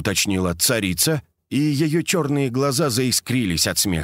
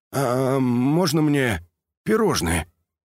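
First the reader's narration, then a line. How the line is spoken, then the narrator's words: Suddenly hoarse wheeze. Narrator (Russian): Колька моментально севшим голосом просипел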